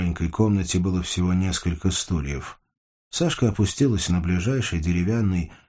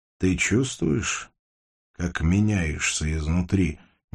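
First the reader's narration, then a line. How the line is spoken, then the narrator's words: Quiet. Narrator (Russian): негромко спросил Портнов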